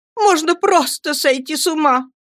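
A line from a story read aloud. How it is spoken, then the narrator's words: Shouting mother. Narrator (Russian): закричала матушка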